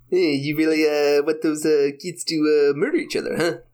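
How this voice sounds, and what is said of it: Imitates another person's accent. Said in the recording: “That's Haneke's uh, accent. I think perfect. Once again, our accent game is just on point ... It's a bowling alley guy from The Simpsons.”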